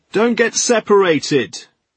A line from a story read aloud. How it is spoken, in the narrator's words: shouted Alistair